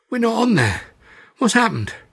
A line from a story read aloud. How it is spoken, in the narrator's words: I rasped